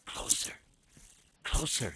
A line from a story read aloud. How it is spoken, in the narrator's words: she whispered